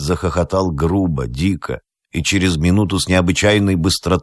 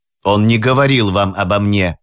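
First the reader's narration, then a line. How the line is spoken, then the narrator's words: Sudden angry shout. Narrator (Russian): крикнул Хайд с внезапным приливом гнева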